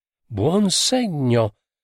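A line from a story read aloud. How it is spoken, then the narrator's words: Exclaimed. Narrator (Italian): esclamò qualcuno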